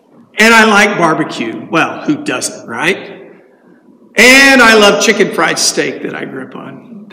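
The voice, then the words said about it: Texas accent. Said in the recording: “I have a Texas accent.”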